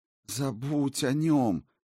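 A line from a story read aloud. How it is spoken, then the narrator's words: Pleading. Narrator (Russian): почти взмолилась Сигарлин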